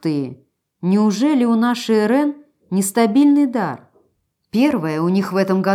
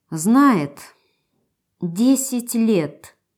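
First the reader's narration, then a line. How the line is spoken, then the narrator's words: Through gritted teeth. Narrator (Russian): процедила сквозь зубы Ирен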